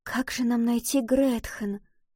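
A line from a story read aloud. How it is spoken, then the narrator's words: Whisper. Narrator (Russian): прошептала Валентина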